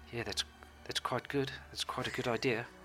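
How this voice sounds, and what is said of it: Put-on New Zealand accent. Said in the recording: “That's a New Zealand accent I was doing there.”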